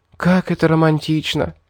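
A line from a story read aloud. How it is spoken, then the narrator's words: Breathless exhale. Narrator (Russian): выдохнула Ребекка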